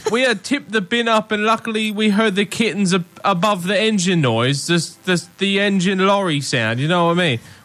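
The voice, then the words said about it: Exaggerated put-on British accent. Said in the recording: “I don't know that I can listen to the story with this accent. ... Is it that bad? ... Yeah.”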